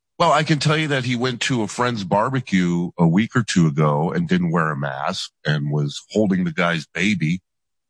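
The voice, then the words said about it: Unusually deep voice. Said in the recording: “Your voice is incredibly deep. ... his voice is deeper today.”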